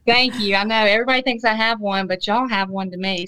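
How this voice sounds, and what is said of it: Mississippi Southern accent. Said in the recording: “you're out in Mississippi. ... I love the accent.”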